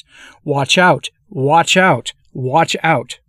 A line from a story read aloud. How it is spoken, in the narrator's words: he exclaimed three times, each time in a louder voice